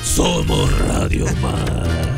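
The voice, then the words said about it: Imitates a salsa singer's voice. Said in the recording (Spanish): “¿ese no es la imitación del Gran Combo? ... Se está imitando a Jerry Rivas. ... Del Gran Combo de Puerto Rico.”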